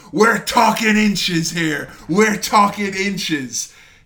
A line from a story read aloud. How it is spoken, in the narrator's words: Jim Ross just screams